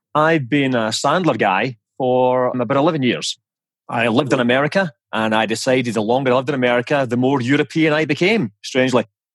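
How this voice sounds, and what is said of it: Scottish accent. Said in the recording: “as you can probably tell from my charming accent, I am Scottish”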